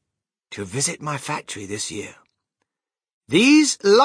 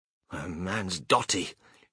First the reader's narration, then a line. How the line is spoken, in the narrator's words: muttered Grandma Josephine